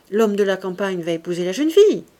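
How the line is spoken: Surprised, somewhat annoyed. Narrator (French): dit Saccard d'un ton surpris et comme fâché

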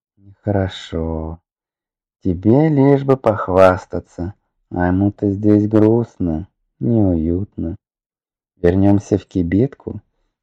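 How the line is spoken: Confiding suggestion. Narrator (Russian): доверительно предложил Лидор

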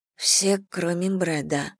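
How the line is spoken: Muttered. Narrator (Russian): пробормотала Элли

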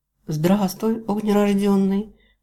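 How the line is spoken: Silent mental purr. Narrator (Russian): промурлыкала мысленно Фэйм

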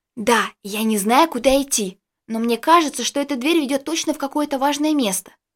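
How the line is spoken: Loud assertive whisper. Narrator (Russian): пытаясь сохранить свой лидерский статус, громко прошептала Джессика

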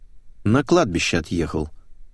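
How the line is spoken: Dry reply. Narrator (Russian): сухо ответил я

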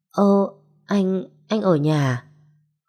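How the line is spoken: Guilty stammer. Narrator (Vietnamese): tôi như kiểu làm việc xấu bị phát hiện, ấp à ấp úng nói

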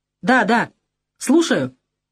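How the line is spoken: Shouting. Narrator (Russian): Кукоцкий закричал

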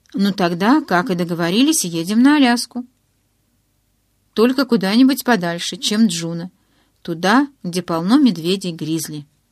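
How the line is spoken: Plain. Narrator (Russian): сказала я

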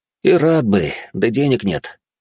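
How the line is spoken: Sighing. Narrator (Russian): вздохнул Ровнин

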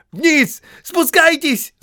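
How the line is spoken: Shouted. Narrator (Russian): закричал Бильбо гномом

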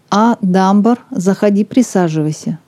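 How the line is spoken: Plain. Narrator (Russian): сказал Макмиллан

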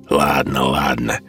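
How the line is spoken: Rude interruption. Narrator (Russian): грубо оборвал романтического могильщика другой голос

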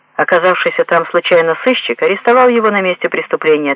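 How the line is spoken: Plain. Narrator (Russian): ответил

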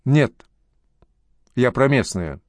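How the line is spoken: Calm. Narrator (Russian): спокойно сказал Джакс

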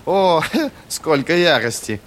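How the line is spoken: Unimpressed laughter. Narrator (Russian): Рассмеялся ученик, на которого угроза Луфара, как ни досадно, не произвела должного впечатления

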